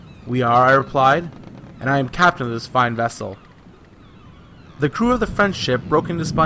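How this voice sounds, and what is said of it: Usual voice. Nothing is said of it.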